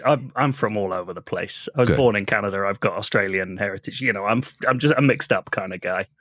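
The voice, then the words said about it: Slight British accent. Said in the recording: “I detect a slight accent ... I'm British”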